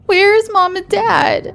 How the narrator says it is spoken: Her sister bawled once more

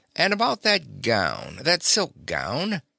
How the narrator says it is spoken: I says gaily

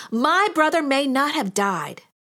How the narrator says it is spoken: Martha exclaimed to Jesus

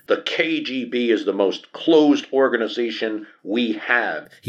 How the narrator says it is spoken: he shouts to the other delegates and on TV screens across the Soviet Union

